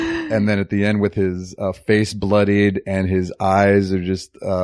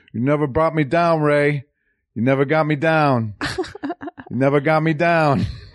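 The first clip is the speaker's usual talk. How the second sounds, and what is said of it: Good impression of a movie character. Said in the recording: “that sounds like a very good impression.”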